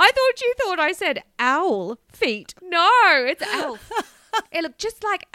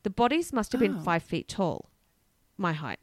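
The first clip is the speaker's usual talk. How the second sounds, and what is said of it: Poor put-on American accent. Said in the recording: “I have to do an American accent... It's terrible.”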